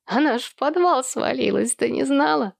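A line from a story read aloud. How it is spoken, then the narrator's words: Speaking through laughter. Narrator (Russian): зашлась хохотом Эллен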